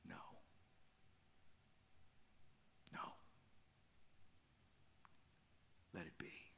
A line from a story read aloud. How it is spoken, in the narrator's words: she says in a whisper